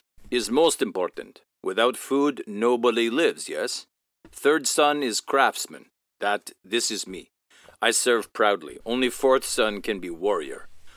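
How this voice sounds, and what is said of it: Imitated character voice, broken English. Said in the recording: “Just did the worst impression of Rock. ... You do all right impression of ... it.”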